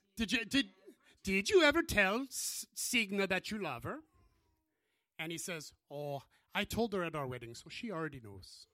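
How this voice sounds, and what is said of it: Put-on Irish accent, not Norwegian. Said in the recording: “that's not a Norwegian accent. ... I was thinking Irish, so I'm saying, hi, I'm an Irish Viking.”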